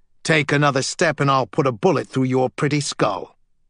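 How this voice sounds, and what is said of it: Harsh voice, thick British accent. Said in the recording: “A harsh voice with a thick British accent”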